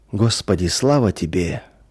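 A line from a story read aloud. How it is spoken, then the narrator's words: Quiet murmuring. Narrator (Russian): тихо приговаривал он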